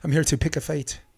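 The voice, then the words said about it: Attempted Braveheart-style movie accent, poorly done. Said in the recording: “Felt like William Wallace climbing up that thing from Braveheart ... accent ... I'm terrible at yeah. accents.”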